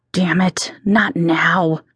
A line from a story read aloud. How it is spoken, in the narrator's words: hissed under my breath as I winced in agony